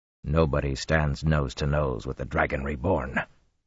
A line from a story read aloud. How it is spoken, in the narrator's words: Rand growled